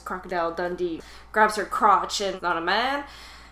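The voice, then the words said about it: Put-on Australian accent. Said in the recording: “That's my Australian accent”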